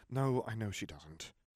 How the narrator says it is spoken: Harry sighed

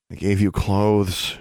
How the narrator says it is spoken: she groaned

